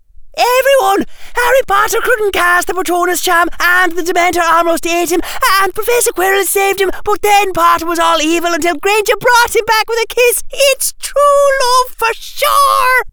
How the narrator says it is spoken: Tracy Davis took a deep breath and shouted

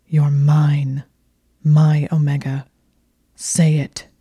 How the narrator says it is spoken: he snarled

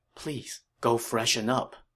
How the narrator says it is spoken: Yi Ji said in a low voice

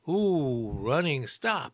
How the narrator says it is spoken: exclaimed Audette, a 76-year-old retired information technology worker

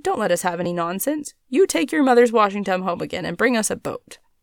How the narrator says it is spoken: said sharply

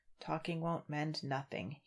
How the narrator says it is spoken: he muttered to himself

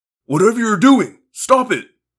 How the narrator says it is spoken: the man cried

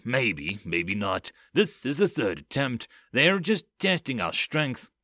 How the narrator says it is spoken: Boss growled

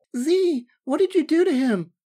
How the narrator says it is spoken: cried the woman

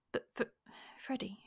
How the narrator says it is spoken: she faltered

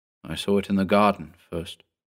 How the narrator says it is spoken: Mark mumbled

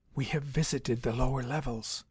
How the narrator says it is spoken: whispered in his ear

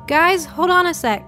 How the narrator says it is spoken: shouted

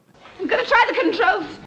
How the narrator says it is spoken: blurts out

